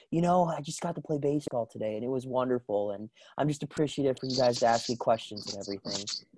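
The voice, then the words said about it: Bubbly Cole Tucker impression. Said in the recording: “my Cole Tucker impression ... he's like a bubbly person”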